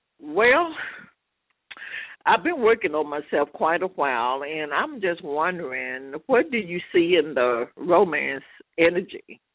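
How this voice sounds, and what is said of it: Tennessee Southern accent. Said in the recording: “I couldn't guess Tennessee. No, I'm kidding. I hear the accent.”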